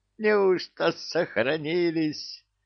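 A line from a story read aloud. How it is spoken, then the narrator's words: Joyful laughter. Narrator (Russian): радостно засмеялся он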